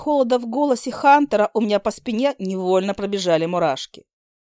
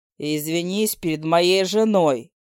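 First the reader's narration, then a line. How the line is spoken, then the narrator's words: Icy declaration. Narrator (Russian): ледяным тоном заявил демон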